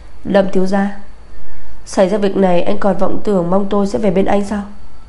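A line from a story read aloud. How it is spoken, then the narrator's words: Angry low growl. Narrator (Vietnamese): Bạch Tinh Nhiên tức giận gầm khẽ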